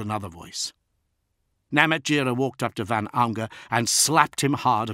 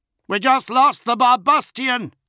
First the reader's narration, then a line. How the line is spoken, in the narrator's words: someone yelled